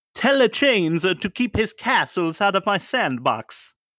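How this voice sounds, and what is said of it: Put-on Italian accent, Mario-like. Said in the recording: “I did my best Italian accent there ... It sounded like Mario ... I was going for Pasquale from Chuck E. Cheese”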